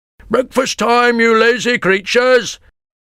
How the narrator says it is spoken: shouted a fat man

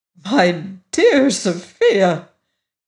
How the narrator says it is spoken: exclaimed

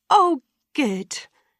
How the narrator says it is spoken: replied his mother happily

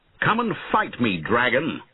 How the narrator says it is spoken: he shouted

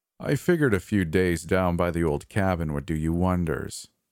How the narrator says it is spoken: he said

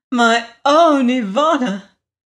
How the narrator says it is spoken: cried the queen

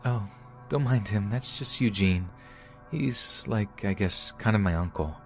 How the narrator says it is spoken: she said in her soft voice

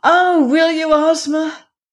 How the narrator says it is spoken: cried Dorothy, clasping her chubby little hands eagerly

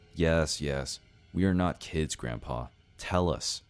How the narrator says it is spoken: I said in a confident tone

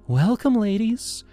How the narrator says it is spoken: Leela chirped, her voice syrupy sweet

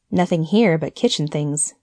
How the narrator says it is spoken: he said with a little laugh for the insignificance of kitchen things

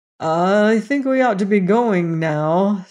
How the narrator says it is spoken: said the Shaggy Man uneasily, for he didn't know what the king might take into his head to do next

